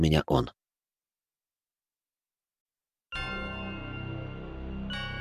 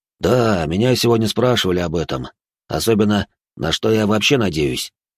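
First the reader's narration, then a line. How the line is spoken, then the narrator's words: Displeased tone. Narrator (Russian): заметил он явно недовольным тоном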